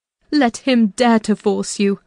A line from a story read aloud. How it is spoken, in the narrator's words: I cried